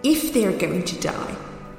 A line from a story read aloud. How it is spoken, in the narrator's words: snapped Scrooge